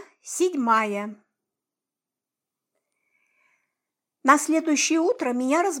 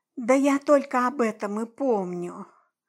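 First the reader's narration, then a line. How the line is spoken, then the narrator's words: Sleepy mumble. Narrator (Russian): сонно промямлила я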